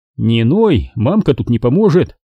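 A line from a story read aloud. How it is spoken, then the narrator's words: Stern threatening. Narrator (Russian): Строго погрозил я ему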